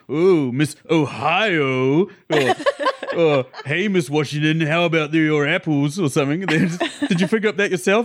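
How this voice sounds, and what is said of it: Impression of the character Frank. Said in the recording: “You're the perfect Frank, though. That's a good Frank impression.”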